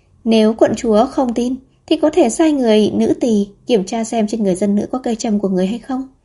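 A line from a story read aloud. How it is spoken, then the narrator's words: Calm after a sigh. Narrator (Vietnamese): Địch Khương thở dài, bình thản nói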